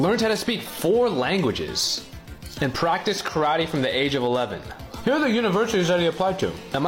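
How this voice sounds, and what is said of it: Usual voice. Nothing is said of it.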